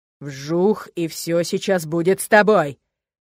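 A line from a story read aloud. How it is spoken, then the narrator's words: Growl. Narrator (Russian): Прорычал я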